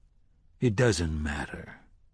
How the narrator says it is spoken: he said softly

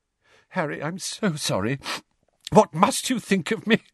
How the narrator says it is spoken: she said shakily

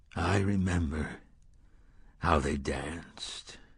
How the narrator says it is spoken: the gunslinger said softly

